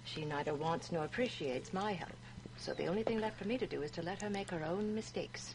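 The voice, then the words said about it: British-sounding Mid-Atlantic accent. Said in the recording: “is so British. ... Mid-Atlantic accent”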